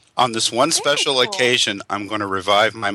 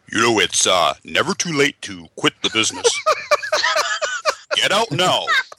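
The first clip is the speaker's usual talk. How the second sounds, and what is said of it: Imitates another person's voice. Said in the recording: “my Michael Curtis impression. ... Oh, that's spot on. That is spot on.”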